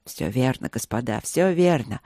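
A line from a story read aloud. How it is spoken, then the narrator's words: Mumbled. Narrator (Russian): пробормотал Люк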